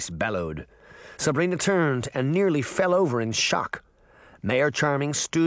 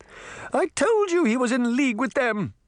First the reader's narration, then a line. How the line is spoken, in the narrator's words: the Queen cried